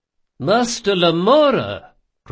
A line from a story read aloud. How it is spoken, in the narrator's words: cried Ibelius